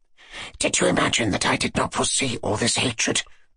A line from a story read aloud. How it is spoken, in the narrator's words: Ippolit whispered again